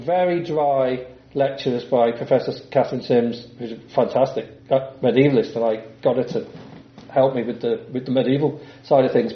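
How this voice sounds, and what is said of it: English accent. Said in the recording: “with my English accent”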